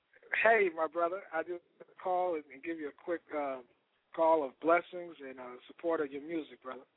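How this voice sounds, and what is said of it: Slightly hoarse voice. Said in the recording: “I'm a little hoarse. I just came home from choir rehearsal.”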